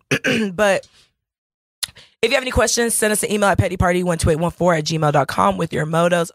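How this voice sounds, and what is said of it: Choked-up, strained voice. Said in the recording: “I'm choking up, so I sound a little weird.”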